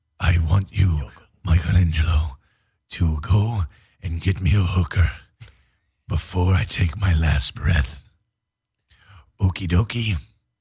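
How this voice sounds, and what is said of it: Splinter voice, old man character. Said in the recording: “will you do them as Splinter? ... old Asian dude ... doing this voice ... We're going to do our Splinter voice.”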